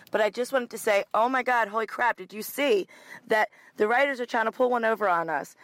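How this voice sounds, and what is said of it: Hoarse, fading voice. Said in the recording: “I apologize, I'm losing my voice.”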